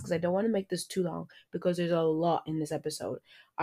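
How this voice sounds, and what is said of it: Talking very fast. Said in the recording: “I'm talking really fast”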